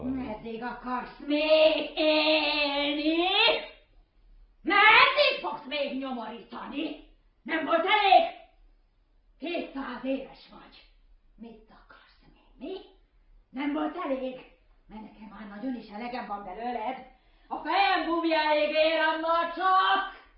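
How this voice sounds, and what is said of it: Loud, angry raised voice. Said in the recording (Hungarian): “Vedd lejjebb a hangod ... Ez lejjebb a hangon”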